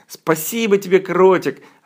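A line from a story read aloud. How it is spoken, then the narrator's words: Joyful shouting, group. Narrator (Russian): радостно закричали они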